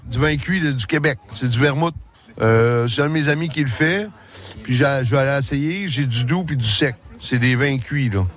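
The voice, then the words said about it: Québécois French accent. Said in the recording (French): “Il a le même accent forcément, pratiquement la même voix... notre Québécois préféré”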